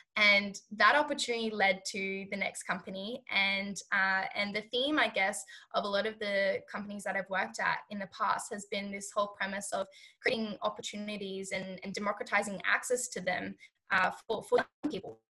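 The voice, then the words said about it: Hoarse, failing voice. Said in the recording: “I know I'm losing my voice. ... Why am I losing my voice all of a sudden?”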